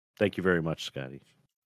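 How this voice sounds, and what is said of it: Elvis impression. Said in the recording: “my Elvis impression ... Perfect.”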